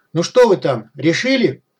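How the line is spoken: Distant shouted question. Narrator (Russian): крикнули из-за камней

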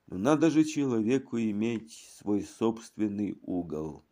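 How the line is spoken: Sighed. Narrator (Russian): вздохнул

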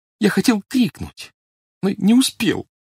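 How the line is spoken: Sobbing. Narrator (Russian): всхлипнул снегирь

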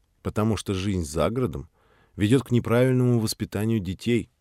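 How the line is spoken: Calm reply. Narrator (Russian): спокойно ответил Володя

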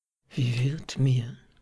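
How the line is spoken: Soft. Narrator (German): so sagt er leise

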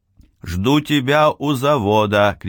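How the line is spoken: Shout after someone. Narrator (Russian): крикнул я ему в спину

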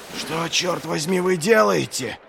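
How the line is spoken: Hoarse call. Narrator (Russian): Хрипло окликнул его Пайк

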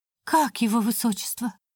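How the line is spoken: Breathed out. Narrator (Russian): выдохнула она

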